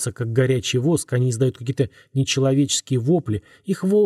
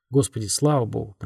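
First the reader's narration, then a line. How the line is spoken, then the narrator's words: Muttered. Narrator (Russian): пробормотал он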